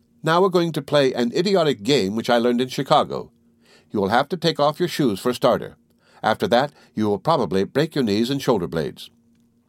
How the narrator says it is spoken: She cried

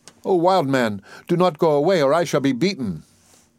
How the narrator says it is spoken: He called and cried after him

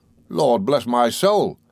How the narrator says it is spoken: he exclaimed

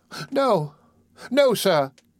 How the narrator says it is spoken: sobbed Oliver

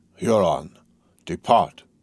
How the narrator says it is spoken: the sage, on whom alone the decision depended, said in a firm voice

